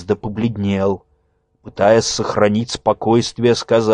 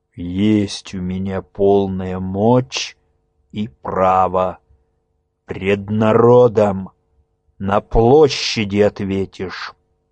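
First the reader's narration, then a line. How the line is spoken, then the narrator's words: Low muffled blacksmith's voice. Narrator (Russian): глухо произнес кузнец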